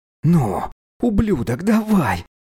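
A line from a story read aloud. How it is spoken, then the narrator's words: Hissed. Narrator (Russian): прошипел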